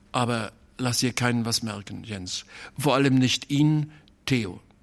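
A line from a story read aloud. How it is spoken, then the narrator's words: Hesitant. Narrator (German): sagte er noch mit zögernder Stimme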